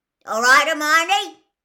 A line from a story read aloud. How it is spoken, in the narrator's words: said Hagrid loudly